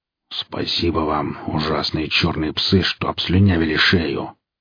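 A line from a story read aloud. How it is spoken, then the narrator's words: Grumble. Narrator (Russian): проворчал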